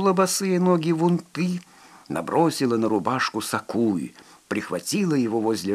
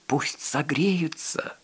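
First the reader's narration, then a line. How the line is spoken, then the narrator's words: Whisper. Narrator (Russian): прошептала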